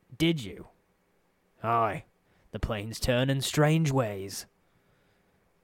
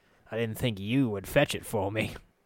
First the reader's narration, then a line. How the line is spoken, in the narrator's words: he chuckled